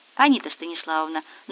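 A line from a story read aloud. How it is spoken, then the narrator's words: Soft, sneaking approach. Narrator (Russian): начал мягко подкрадываться Коля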